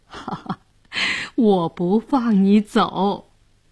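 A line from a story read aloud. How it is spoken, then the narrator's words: Laughing. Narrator (Chinese): 姑姑笑着说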